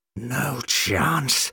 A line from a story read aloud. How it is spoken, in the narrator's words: snarled